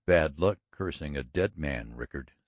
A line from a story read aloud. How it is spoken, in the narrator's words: said Norton coldly